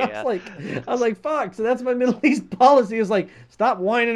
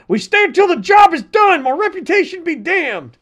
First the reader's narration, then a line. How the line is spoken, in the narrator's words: yelling